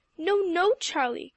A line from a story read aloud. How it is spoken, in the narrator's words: cried the alarmed Zook in a remonstrative tone